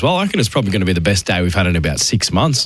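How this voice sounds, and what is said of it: Hoarse, strained voice. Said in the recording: “You've lost your voice on the 500 podcasts you're on before. ... I'm still recovering from a bit of a sickness last week”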